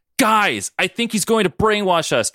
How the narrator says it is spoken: Truman yelled

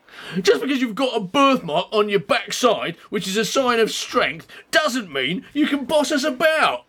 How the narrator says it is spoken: yelled Anne in reply

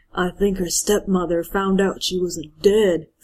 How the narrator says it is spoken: Frank whispered, clearly mortified

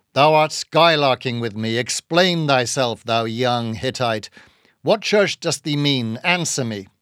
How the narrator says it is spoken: said Bildad sternly

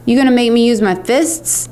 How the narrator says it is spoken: he said

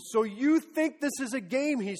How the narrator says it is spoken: he screamed

